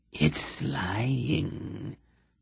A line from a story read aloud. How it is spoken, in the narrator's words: the sibilant whisper came from behind Geryon